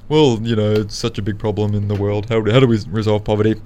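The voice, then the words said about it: Imitates another person's voice. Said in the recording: “Sounds like you're trying to do my voice there.”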